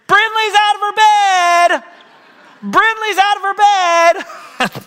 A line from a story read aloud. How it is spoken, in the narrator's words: So Charlie yells to us downstairs